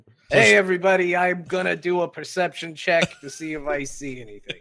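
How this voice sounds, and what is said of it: Mario character voice. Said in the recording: “Every time I do a voice ... You're now Mario”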